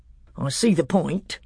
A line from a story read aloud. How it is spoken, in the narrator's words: said Trumpkin dryly